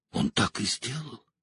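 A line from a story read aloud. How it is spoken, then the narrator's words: Shuddering whisper. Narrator (Russian): прошептала Элайн, содрогаясь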